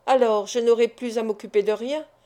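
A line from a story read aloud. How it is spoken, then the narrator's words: Cold question, banker. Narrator (French): demanda froidement le banquier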